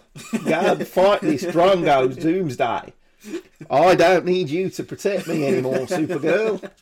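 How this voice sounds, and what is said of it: Put-on Australian accent. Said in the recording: “accent flawless... It's just like you're in Australia watching Home and Away”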